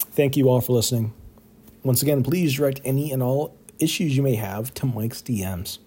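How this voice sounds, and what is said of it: Worn-out, strained voice. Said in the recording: “my voice is about done here”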